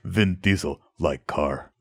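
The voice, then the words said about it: Caveman-like imitation of another person's voice. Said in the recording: “my Vin Diesel impression ... it's more like this ... It's more of a caveman ... It's kind of caveman / thing”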